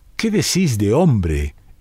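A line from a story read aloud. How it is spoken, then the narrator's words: Exclaimed. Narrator (Spanish): exclamó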